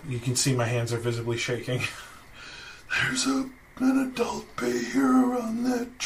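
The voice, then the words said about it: Speaking very quietly. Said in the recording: “Why are you talking so quietly?”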